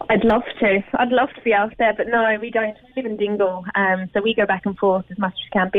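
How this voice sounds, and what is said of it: English accent with slight Australian shades. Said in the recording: “that's not an accent from the Blasket region? ... Am I hearing shades of Down Under there? ... I'm from just outside of London myself.”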